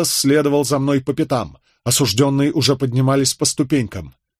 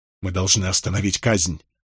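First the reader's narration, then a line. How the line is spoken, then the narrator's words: Breathed out. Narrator (Russian): выдохнул я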